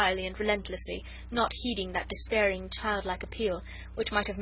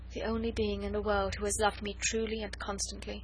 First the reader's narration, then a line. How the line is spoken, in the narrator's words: Her eyes at last grew moist as she murmured half to herself